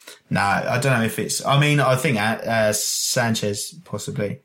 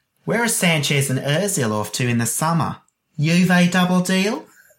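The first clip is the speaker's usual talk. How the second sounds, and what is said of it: Sassy female Australian accent. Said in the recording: “Can you read it in an Australian accent? ... not bad. ... sort of like a sassy lady Australian.”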